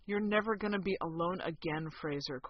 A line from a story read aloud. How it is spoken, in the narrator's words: Kowalski murmured